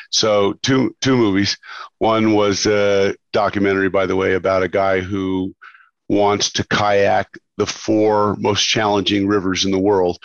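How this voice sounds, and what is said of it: Sick, under-the-weather voice. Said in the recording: “I'm a little under the weather, if you can hear from my voice.”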